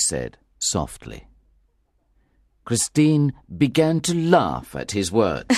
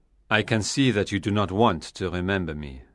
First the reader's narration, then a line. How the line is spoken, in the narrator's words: he said coldly